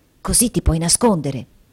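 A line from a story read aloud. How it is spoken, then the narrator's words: Added softly. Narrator (Italian): aggiungendo sottovoce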